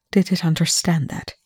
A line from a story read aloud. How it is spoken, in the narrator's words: he murmured to Chloe